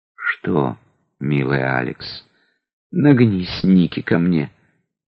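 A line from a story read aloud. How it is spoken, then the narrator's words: Whispered. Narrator (Russian): Я шепнул его слова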